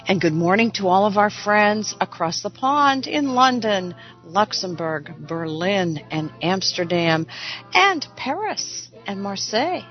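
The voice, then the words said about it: Slightly gravelly voice. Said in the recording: “My voice is a little better today than last week. Did you notice? A little gravelly? Did any of you get hit by the cold and flu season?”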